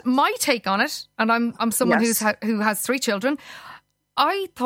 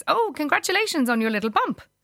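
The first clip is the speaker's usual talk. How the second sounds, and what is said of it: Put-on Norwegian accent. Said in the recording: “she was a Norwegian journalist ... I think I might have even done her accent there with it. ... Beautifully.”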